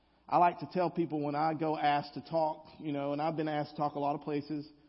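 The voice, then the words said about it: Southern American accent. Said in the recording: “they're always making fun of my accent. They're always talking about, oh, you use y'all. You sound different.”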